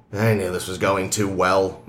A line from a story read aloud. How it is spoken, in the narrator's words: McCoy grumbled